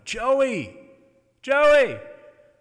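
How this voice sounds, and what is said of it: Yelling a name. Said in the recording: “I'm yelling”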